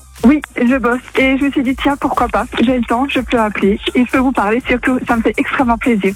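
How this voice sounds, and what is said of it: Alsatian French accent. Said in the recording (French): “t'es alsacienne ... J'ai reconnu un peu l'accent ... c'est vrai qu'on l'entend assez bien”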